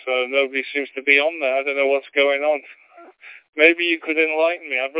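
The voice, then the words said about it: English accent. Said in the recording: “you're obviously English. I can tell by the accent.”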